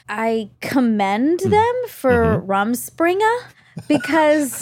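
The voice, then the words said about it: Briefly slips into an odd accent. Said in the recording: “I like your accent. Whatever that was. ... Did I do an accent? ... A little bit.”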